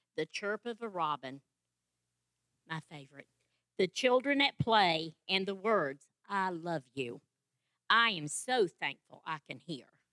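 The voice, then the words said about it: Speaks with a noticeable accent. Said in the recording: “I'm thankful for her accent. I just love it.”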